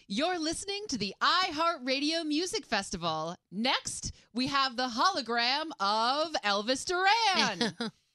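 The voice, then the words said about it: Booming announcer voice-of-God delivery. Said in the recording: “Give us that voice of God thing”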